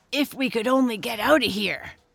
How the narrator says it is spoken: grunted Squinty

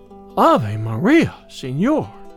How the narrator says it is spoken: exclaimed the damsel, blushing still deeper with confusion and surprise

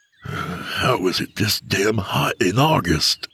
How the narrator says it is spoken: he grumbled

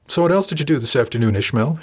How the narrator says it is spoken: asked blandly

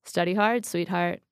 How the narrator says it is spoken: said

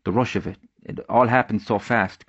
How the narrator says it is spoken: Creighton stuttered

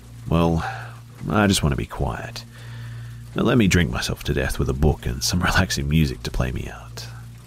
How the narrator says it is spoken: I sighed

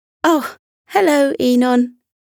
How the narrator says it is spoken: she giggled

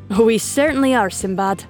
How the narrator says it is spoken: Dima's dad replied with a merry chuckle

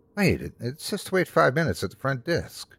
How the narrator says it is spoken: I whispered back

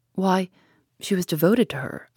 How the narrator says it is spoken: I exclaimed

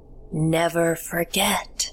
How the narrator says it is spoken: I heard her croak

